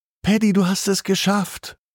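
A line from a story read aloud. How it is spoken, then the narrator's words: Starlight calling out. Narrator (German): ruft das Sternenlicht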